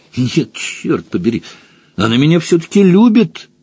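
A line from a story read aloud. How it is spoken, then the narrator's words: Emotional exclamation. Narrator (Russian): воскликнул Джон Том с чувством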